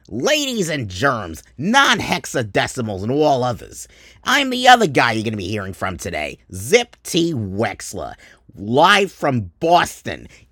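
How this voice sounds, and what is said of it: Boston accent with a Queens tinge. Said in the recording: “from Dorchester ... I just have a bit of Queens in my accent”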